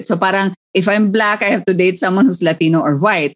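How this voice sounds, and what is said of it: Accent becomes strong. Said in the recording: “accent just kick in very strongly”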